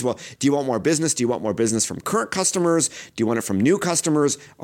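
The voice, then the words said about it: New York-sounding accent. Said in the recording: “sounding like a New Yorker, but spending 3 days in New Jersey had this effect on my accent.”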